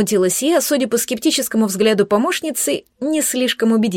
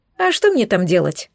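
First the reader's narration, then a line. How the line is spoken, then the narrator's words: Snorting. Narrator (Russian): фыркнула Пелагея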